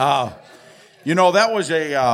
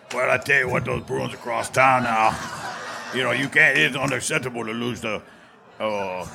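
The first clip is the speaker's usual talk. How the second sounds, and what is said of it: Coach O impression, strained voice. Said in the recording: “your best Coach O impression ... I cannot do that very long ... because it hurts like heck”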